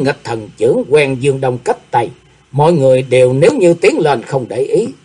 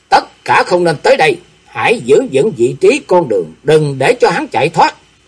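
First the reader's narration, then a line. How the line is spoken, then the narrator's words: Commanding shout. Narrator (Vietnamese): Diệp Linh Tô quát lên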